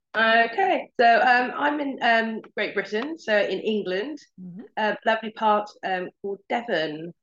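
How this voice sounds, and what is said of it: English accent. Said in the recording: “You're on the other side of the world. I can tell by your accent”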